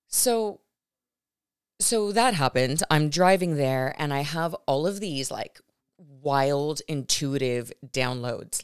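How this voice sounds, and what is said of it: Hoarse, partly lost voice. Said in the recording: “my voice is a little bit gone right now, so if I keep making noises, that's why”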